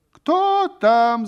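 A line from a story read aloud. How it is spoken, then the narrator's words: Woman shouting. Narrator (Russian): закричала кумова жена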